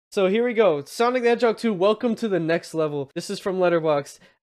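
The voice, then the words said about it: Nasal, sick-sounding voice. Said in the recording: “if I sound different, it's because I'm kind of sick right now ... If I sound a bit nasally.”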